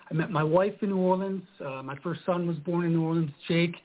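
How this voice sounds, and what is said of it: Slight accent. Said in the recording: “a bit of an accent there”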